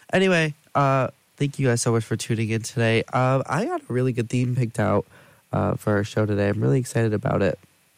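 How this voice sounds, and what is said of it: Congested voice with sniffing. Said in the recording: “I am a little bit under the weather today ... have a little bit of a cold, as you can hear me sniffing on the mic”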